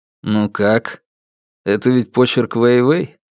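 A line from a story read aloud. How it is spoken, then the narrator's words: Calm question. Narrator (Russian): спокойно спросил Фан Му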